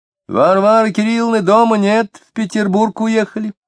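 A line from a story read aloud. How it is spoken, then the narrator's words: Girl's joyful cheerful shout. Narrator (Russian): девочка-подросток почему-то с радостью весело закричала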